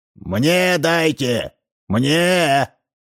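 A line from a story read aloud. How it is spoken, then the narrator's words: Shouting from the door. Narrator (Russian): кричал от двери Ложкин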